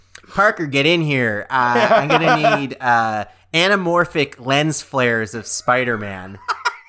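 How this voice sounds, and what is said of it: Nerdy middle-aged man voice. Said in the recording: “That's my every fucking nerd voice. I could be anybody over the age of 30. ... it sounds like glasses, big nose, big ears”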